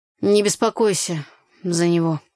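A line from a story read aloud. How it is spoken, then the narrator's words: Dry reply. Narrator (Russian): сухо ответил Игорь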